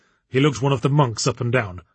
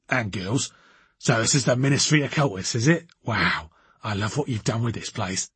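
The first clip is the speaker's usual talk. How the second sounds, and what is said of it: Raucous South London accent. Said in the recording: “in a raucous South London accent”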